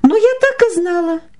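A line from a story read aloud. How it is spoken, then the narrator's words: Displeased exclamation, woman. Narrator (Russian): недовольно воскликнула жена, увидев серьги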